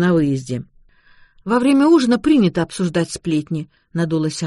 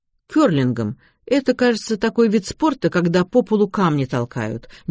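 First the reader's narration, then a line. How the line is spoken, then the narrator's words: Uncertain explanation. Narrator (Russian): неуверенно пояснил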